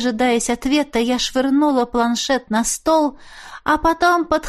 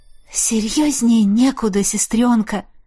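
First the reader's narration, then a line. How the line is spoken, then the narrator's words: Breathless exhale. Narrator (Russian): Выдохнула я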